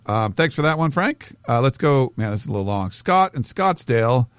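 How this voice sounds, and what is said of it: Strained, fading voice. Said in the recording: “my voice is going a little bit here”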